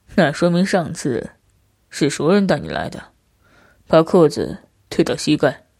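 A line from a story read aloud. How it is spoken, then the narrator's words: Faint smile, casual. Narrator (Chinese): 叼烟男淡淡一笑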